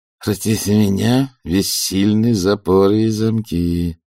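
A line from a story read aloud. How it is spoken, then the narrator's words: Prompting through clenched teeth. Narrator (Russian): суфлировал он сквозь зубы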